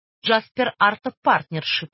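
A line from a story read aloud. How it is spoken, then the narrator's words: Irritated interruption. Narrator (Russian): раздраженно прервал полицейского Ренье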